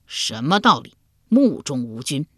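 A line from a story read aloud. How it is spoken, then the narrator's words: Angry. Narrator (Chinese): 齐桓公怒道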